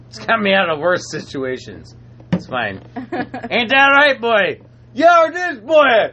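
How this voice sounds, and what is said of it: Unconvincing put-on Jamaican accent. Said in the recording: “like a racist Chinese accent ... do I sound Jamaican as fuck? ... so unnatural to his Nordic tonsils”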